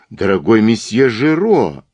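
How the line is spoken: Exclaimed. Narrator (Russian): воскликнул комиссар

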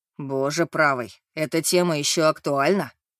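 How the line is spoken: Groan. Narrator (Russian): простонал дизайнер

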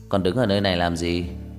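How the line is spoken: Cold voice. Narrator (Vietnamese): Một giọng nói lạnh lùng truyền đến

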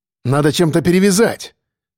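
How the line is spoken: Shouting. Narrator (Russian): крикнул я

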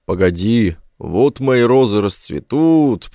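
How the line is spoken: Low booming drone. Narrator (Russian): прогудел Конверс

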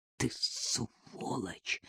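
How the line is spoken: Hoarse whisper. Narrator (Russian): прошептал Незванов мгновенно севшим голосом

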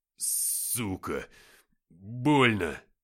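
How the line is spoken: Pained groan. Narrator (Russian): застонал он

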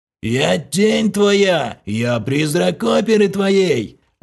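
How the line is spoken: Sepulchral howl. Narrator (Russian): За могильным голосом провыл Влас

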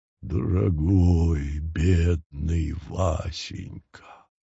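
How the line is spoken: Low chesty mooing voice. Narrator (Russian): низким грудным голосом промычала

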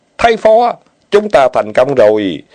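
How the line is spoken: Loud joyful group cheer. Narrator (Vietnamese): Bọn Lý Tư vây quanh hai người, cao giọng chúc mừng, ai nấy cũng hấn hở

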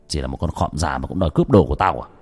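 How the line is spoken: Harsh sneering young man. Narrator (Vietnamese): Người thanh niên cười gằn giọng

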